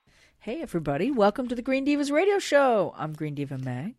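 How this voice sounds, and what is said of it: Smoky, husky sick-sounding voice. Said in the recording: “Don't you like my sexy voice? ... you've always had a sexy voice, but it's got sexier. ... You've got that Kathleen Turner sort of like... ... The smoky, I've got the flu voice.”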